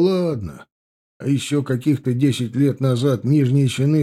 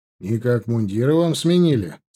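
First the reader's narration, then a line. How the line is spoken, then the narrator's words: Plain. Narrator (Russian): спросил он Копорского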